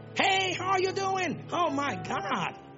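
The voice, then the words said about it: Put-on foreign accent. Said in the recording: “Accent.”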